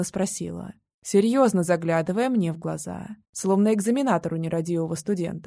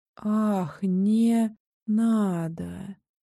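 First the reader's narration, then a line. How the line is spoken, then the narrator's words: Slurred wheezing. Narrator (Russian): просипела Мия заплетающимся языком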